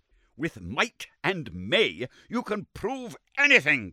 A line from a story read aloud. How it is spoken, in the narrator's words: cried Summerlee furiously